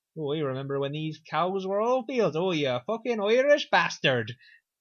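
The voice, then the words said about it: Put-on Irish accent. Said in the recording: “That's Irish accent.”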